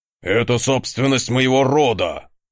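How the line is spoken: Growling. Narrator (Russian): рыкнул ярл

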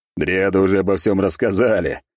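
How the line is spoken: Loud laughing. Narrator (Russian): захохотал я

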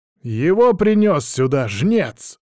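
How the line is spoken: Loud. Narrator (Russian): громко произносит

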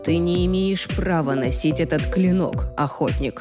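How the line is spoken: Quiet warning. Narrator (Russian): тихо предостерег он

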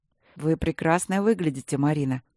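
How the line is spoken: Calm. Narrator (Russian): так же спокойно проговорил

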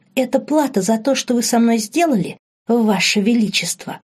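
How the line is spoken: Hissing. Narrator (Russian): прошипела она

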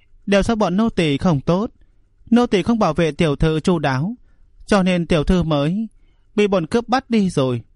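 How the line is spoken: Choked sobbing. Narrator (Vietnamese): hai người nghẹn ngào nức nở nói

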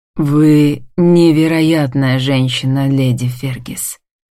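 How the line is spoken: Solemn exclamation. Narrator (Russian): восклицает торжественным тоном

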